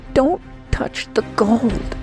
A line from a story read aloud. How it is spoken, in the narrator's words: she pleaded again